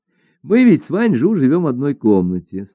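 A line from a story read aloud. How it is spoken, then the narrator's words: Laughing. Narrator (Russian): стала рассказывать Жо Хуа, продолжая смеяться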